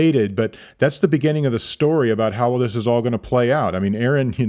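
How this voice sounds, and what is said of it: Usual voice. Nothing is said of it.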